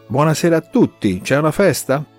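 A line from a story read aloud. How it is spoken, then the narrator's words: Man calling from doorway. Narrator (Italian): esclama un uomo dall'uscio della porta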